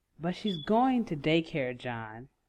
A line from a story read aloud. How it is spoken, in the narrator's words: Rodney said